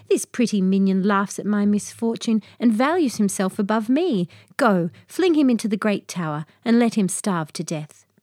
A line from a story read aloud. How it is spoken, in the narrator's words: cried